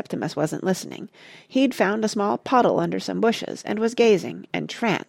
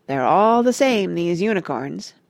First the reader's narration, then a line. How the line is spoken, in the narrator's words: Parrot went on gloomily